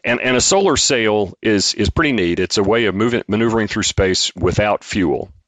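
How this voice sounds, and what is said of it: North Alabama Southern accent. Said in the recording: “my acquired North Alabama accent”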